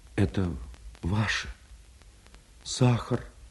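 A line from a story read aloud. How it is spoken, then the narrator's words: Quiet. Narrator (Russian): тихо сказала она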